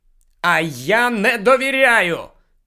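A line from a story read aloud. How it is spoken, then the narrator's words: Shout. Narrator (Ukrainian): знову крикнув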